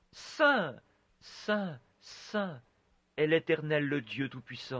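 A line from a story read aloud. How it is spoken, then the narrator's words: Very soft voice. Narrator (French): il doit l'avoir dit très doucement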